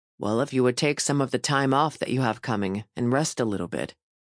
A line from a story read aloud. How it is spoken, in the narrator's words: he said